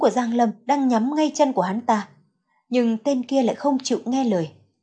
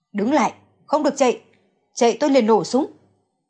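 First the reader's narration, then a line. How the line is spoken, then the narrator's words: Loud shout. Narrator (Vietnamese): Giang Lâm Nhất lớn tiếng kêu lên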